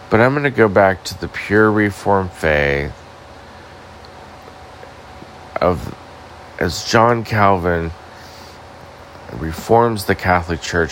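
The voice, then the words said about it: Tired, sleepy voice. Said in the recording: “I'm just really tired. I'm sure you can hear it in my voice. I nearly fell asleep.”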